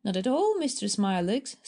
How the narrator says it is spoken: said Lee cheerfully

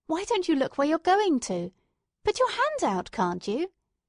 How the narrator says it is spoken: she said sharply, as if the words were jerked out of her

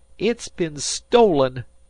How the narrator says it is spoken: cried Harvey hotly

